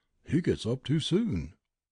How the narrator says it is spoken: murmur

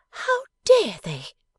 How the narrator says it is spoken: exclaimed Bella

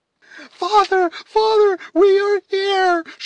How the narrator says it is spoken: shrieked Alice

